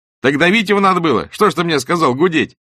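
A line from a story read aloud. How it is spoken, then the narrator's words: Laughing. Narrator (Russian): смеялся Лаврик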